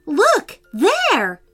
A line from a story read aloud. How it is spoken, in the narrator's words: said Prince Henry urgently